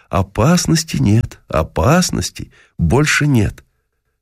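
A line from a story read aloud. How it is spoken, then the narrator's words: Reassuring. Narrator (Russian): мы стали уверять ее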